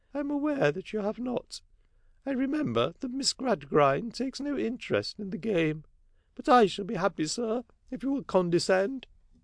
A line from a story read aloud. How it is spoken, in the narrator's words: Sparsit soothingly